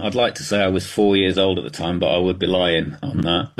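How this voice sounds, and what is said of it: Thick British accent. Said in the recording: “you've obviously got a thick British accent.”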